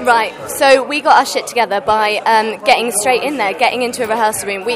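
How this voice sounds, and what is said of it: Slightly posh English accent. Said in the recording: “You sound a bit posh. ... I am a little bit, yeah. I'm from Cambridge ... I'm trying to, like, dull it down”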